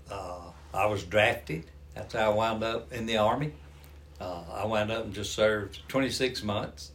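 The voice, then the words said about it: Southern American Georgia accent. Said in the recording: “I'm from Georgia, if folks don't recognize the accent. Old Southern boy.”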